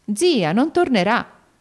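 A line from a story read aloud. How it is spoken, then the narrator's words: Exclaimed. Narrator (Italian): esclamò alla fine Lucrezia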